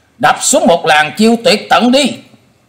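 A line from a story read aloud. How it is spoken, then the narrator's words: Shouted. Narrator (Vietnamese): nhị đầu thái tử thét lên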